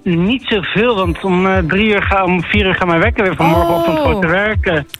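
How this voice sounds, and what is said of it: Dutch accent. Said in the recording (Dutch): “ik hoor je hebt een Nederlands accent.”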